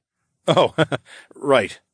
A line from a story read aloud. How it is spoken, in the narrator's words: I chuckled